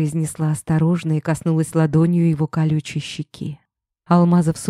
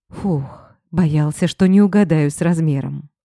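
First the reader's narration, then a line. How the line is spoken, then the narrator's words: Relieved exhale. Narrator (Russian): выдохнул он с облегчением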